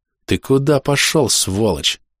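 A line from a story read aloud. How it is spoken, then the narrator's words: Quiet, through teeth. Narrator (Russian): тихо сквозь зубы спросил я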